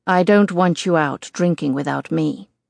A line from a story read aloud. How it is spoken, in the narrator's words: he says firmly